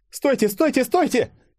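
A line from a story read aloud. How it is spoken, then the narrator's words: Screaming. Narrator (Russian): завопила она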